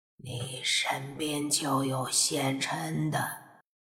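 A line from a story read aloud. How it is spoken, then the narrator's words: Hoarse, sexless voice. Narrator (Chinese): 一道分不清是男还是女的声音沙哑的开口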